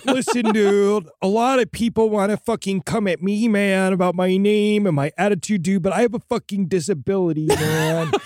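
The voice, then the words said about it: Stoner dude character accent. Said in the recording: “I got permanent stoneritis, man ... You think I want to have this fucking accent, dude”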